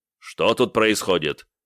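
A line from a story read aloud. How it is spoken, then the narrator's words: Commanding officer's question. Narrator (Russian): приказным тоном спросил какой-то подполковник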